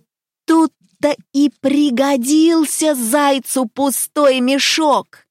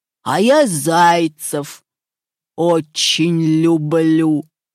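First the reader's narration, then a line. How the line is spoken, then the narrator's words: Growling wolf. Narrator (Russian): зарычал волк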